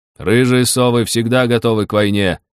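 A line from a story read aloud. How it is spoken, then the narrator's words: Loud announcement. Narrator (Russian): громко объявил Бедвар Громобой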